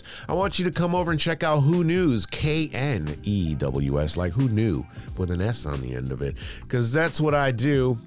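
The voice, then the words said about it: Voice affected by a cold. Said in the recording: “I'm still getting over a cold. You can probably hear it in my voice.”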